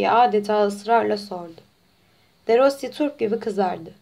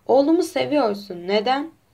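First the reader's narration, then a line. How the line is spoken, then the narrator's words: Sad voice. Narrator (Turkish): Hüzünlü bir sesle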